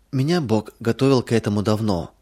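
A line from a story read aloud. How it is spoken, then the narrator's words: Calm. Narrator (Russian): спокойно произнесла она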